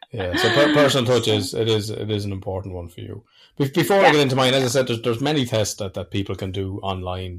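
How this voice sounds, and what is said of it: Thick, hard-to-understand regional accent. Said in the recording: “you won't be able to understand me with my accent ... he needs subtitles, doesn't he?”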